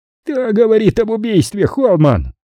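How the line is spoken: Shriek. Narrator (Russian): взвизгнул Хойт

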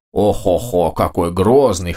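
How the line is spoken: Ogre head, laughing. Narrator (Russian): хохотнула правая голова Огра

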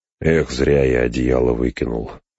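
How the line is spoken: Grumbling. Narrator (Russian): пробурчал Сэм

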